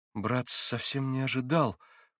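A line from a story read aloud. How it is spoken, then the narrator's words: Muttering. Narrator (Russian): пробормотал был Алеша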